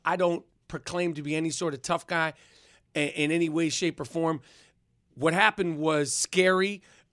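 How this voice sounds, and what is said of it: New York accent. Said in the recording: “I sound tough because of my New York accent”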